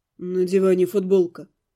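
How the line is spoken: Dull, muffled. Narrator (Russian): сказал глухо

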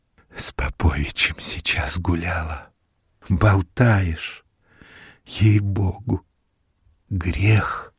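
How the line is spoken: Whispered. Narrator (Russian): шепнула Софья

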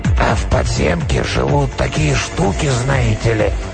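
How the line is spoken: Sudden hoarse trembling voice behind. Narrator (Russian): Голос, хриплый и дрожащий, прозвучал внезапно откуда-то сзади

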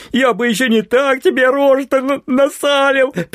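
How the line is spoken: Ringing gleeful laughter. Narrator (Russian): произнес мой товарищ звонким хохотом, радуясь претерпенному Оськой поражению

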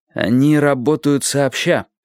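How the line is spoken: Alarmed exclamation. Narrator (Russian): с тревогой воскликнул Сони

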